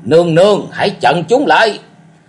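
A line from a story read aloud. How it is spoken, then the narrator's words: Roaring. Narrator (Vietnamese): Cổ Du gầm rống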